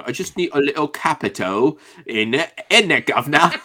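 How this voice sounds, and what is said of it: Mock British accent. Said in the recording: “the British really came out ... a very deeply British accent at that point. Much better than I just did.”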